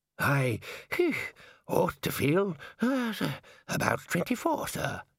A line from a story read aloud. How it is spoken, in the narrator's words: Ponder groaned